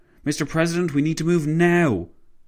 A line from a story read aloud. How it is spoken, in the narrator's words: his driver exclaimed